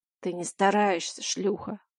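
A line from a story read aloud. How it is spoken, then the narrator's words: Growl. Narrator (Russian): рыкнул он мне в лицо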